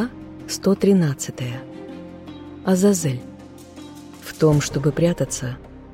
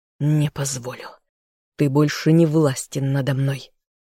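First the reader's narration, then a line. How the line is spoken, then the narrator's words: Inner growl. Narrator (Russian): зарычал мысленно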